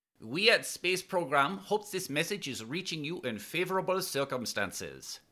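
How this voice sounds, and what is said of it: Young woman's voice, French accent. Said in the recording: “a young female's voice with a charming French accent”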